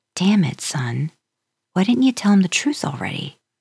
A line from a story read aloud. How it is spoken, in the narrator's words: Sam sighed heavily